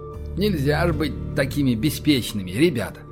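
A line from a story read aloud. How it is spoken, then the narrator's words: Mutter. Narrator (Russian): пробормотал Александр Одинцов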